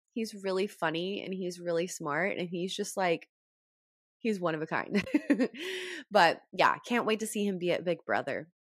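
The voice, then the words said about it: Rough, congested-sounding voice. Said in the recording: “my allergies are really bad. So my voice is kind of yucky.”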